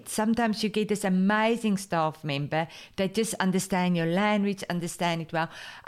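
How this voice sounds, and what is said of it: Strong accent. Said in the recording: “my strong accent”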